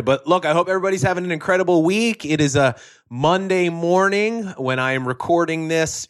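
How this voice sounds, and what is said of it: Slightly raspy, tired voice. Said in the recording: “my voice sounds a little raspy ... I'm dragging a little bit from the jet lag”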